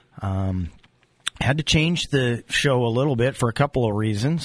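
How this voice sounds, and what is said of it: Sick, under-the-weather voice. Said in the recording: “If you can't tell from my voice, I'm a little under the weather”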